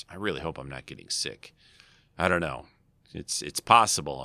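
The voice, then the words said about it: Slightly hoarse voice. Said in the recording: “My voice is still a little hoarse... scratchy throat”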